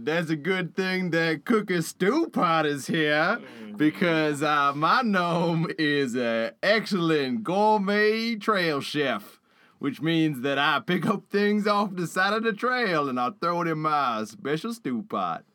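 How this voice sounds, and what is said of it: Gnome character voice. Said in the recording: “absorbed into the character of Cooky ... doing that voice”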